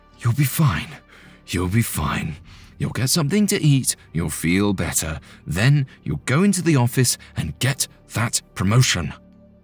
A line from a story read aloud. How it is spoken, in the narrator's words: He breathed deeply and whispered to himself